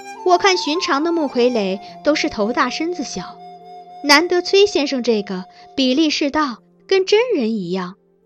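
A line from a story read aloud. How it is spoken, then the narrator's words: Admiring praise. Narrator (Chinese): 公主赞叹道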